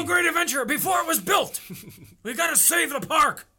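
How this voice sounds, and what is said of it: Doc Brown movie character impression. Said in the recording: “worst Doc Brown impression ... No, that's legit. Sounds just like him.”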